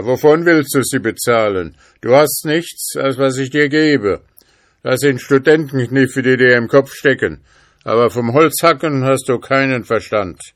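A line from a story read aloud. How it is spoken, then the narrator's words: Father calling out. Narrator (German): rief der Vater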